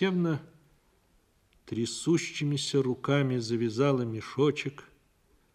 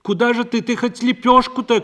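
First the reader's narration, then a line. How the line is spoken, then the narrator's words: Shouted after someone. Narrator (Russian): крикнула ей вслед Парашка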